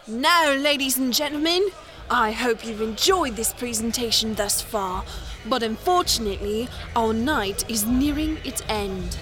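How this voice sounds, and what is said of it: Put-on English accent. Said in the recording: “English accent.”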